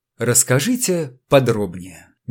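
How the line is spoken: Soft request. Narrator (Russian): мягко попросил он

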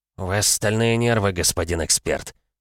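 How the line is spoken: Muttered through teeth. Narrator (Russian): пробормотал сквозь зубы Мортон

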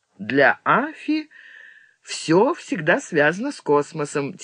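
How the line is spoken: Laughing. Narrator (Russian): Тивиса засмеялась

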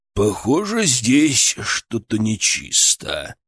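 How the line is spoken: Bear growling. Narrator (Russian): прорычал медведь

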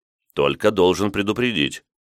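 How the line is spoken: Stern. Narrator (Russian): строго произнес я

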